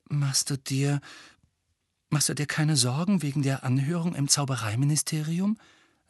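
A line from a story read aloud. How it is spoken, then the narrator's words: Quiet. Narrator (German): sagte Hermine leise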